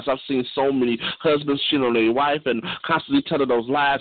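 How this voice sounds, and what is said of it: Southern US accent. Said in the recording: “old school with a southern accent”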